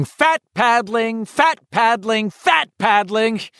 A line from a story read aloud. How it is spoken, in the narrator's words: screaming